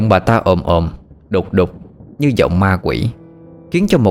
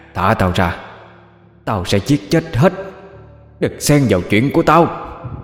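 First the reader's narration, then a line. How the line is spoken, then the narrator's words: Harsh growling shout. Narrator (Vietnamese): Bà ta gằn giọng quát lên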